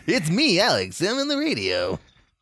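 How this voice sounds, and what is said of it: Put-on radio announcer voice. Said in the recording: “I have to put my radio voice on.”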